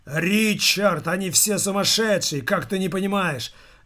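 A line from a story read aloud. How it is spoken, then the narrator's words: Man exclaiming. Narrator (Russian): воскликнул рыжий дядька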